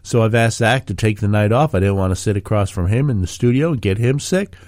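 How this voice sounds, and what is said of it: Sick, congested voice. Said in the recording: “You could probably hear in my voice that I am dealing with a significant cold.”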